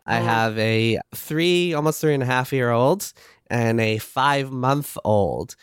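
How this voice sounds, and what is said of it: Congested voice, sounds like a cold. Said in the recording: “if I sound like I have a cold right now”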